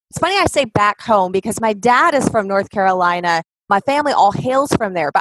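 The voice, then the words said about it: Southern American accent. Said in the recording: “you are back in your Southern accent”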